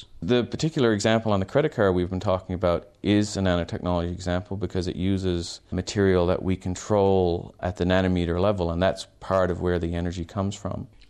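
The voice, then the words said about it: Canadian Newfoundland accent. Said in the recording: “you're not exactly with a South Australian accent ... I grew up in Canada. In fact, I grew up in a place called Newfoundland on the east coast of Canada”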